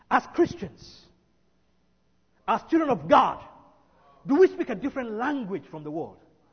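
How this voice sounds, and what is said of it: Non-American accent. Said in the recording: “I'm not an American. ... I don't talk like one. ... you can hear my accent.”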